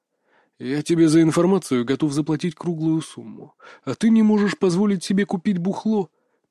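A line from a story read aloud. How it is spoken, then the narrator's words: Through teeth, rising irritation. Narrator (Russian): процедил Иван, чувствуя, как внутри него закипает раздражение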